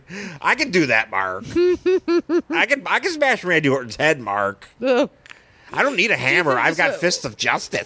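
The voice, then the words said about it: Imitates another person's voice. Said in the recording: “Mark Maron Gallagher impersonation ... Gallagher talking to Mark Maron”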